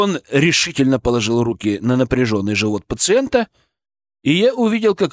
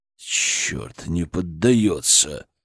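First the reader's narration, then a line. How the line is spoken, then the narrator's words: Hissed through teeth. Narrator (Russian): Прошипел сквозь зубы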